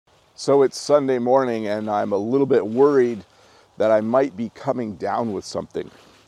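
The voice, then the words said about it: Slightly gravelly, hoarse voice. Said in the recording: “I have a little bit of a tickle in my throat. You can probably hear it in my voice. I sound a little bit gravelly.”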